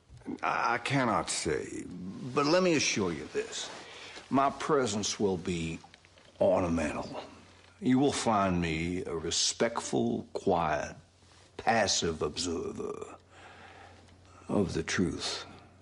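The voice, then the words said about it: Benoit Blanc's southern accent. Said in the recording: “Benoit Blanc ... Daniel Craig ... southern accent for Benoit Blanc coming out of Daniel Craig is just a bizarre experience ... It's fantastic.”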